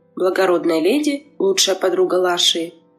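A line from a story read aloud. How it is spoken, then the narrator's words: Low voice, suppressed hatred. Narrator (Russian): спросила низким голосом, подавляя свою ненависть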